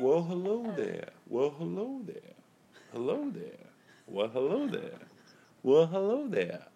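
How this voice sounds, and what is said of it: Lotso Hugging Bear voice impression. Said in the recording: “I had molasses from Lotso Hugging Bear.”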